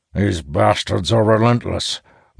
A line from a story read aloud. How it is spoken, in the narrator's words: Moore remarks, his voice hoarse from screaming